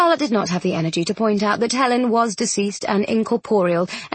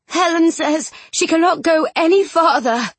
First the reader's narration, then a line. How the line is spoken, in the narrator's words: she said hoarsely